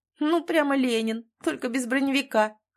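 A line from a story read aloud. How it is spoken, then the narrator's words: Laughed. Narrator (Russian): хохотнула Рашида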